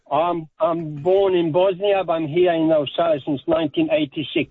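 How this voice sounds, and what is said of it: Non-native accent in English. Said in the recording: “Hey, where's your accent from, mate? ... Do you think ... accent's sexy ... I wouldn't say it's sexy ... Nah, it's not sexy.”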